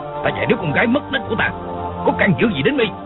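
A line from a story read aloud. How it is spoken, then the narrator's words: Furious demanding shout. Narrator (Vietnamese): Hắn căm giận quát hỏi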